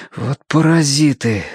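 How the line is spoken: Exhaled. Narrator (Russian): выдохнул Тенька

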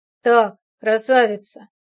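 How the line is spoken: Calm, mocking. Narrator (Russian): произнес я спокойно и насмешливо

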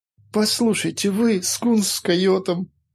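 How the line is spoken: Moaning. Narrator (Russian): застонал Файтви

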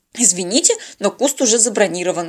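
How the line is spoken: Frightened rapid chatter. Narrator (Russian): испуганно затараторила она

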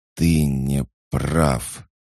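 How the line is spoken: Growl. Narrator (Russian): прорычал Хаджар

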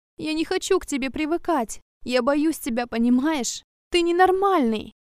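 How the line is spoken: Moaning through tears. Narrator (Russian): Стонет сквозь слезы

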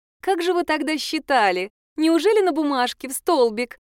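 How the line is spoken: Giggling. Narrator (Russian): хихикнула блондинка

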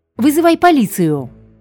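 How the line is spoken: Louder shout. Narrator (Russian): крикнула Луиза сильнее

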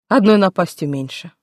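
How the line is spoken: Calm. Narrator (Russian): спокойно сказала

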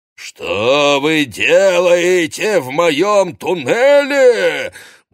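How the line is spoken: Booming roar. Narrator (Russian): гулко взревел незнакомец

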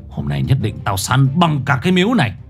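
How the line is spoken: Harsh gritted voice. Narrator (Vietnamese): Năm Lác gằn giọng

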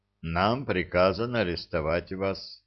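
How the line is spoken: Weary. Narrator (Russian): устало сказал капитан

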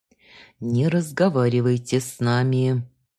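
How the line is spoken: Through gritted teeth. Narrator (Russian): процедил сквозь зубы сопровождающий в штатском

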